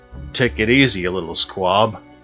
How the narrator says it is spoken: growled

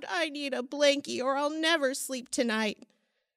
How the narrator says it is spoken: He sobbed

